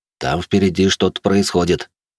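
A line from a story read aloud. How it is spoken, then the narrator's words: Worried voice. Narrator (Russian): произнес он обеспокоенным голосом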